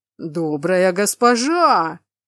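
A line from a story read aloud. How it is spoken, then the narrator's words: Howling cyclops. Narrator (Russian): взвыл циклоп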